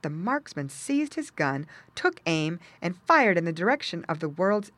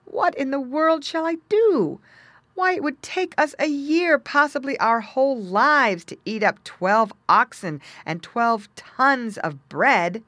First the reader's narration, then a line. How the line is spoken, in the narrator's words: he sighed